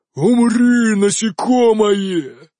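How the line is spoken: Triumphant roar. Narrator (Russian): торжествующе взревел огненный элементаль

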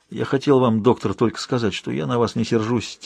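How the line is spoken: Quiet. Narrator (Russian): тихо произнес он

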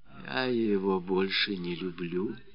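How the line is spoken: Whisper in silence. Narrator (Russian): прошептала Феня в одну из таких молчаливых сцен

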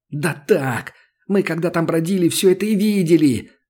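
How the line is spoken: Unrestrained yelling. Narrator (Russian): заорал Сашка, уже не сдерживаясь

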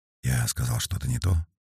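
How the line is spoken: Quiet question. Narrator (Russian): тихо спросил Феликс

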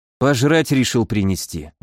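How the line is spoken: Tired. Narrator (Russian): устало перевел я

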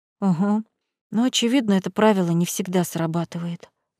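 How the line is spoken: Sighing. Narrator (Russian): вздохнул виконт

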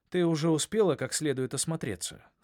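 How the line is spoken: Plain. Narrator (Russian): сказал он

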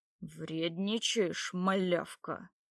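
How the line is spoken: Angry, through teeth. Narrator (Russian): процедил Ярик, вмиг вспыхнув лицом

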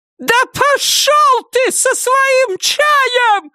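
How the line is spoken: Highest-pitched shriek. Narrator (Russian): завизжала она на самой высокой ноте, на какую только была способна

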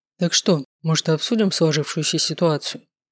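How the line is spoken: Plain. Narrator (Russian): спросил Маркус

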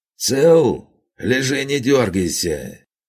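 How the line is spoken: Booming voice from above. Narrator (Russian): Прогремел надо мной чей-то голос

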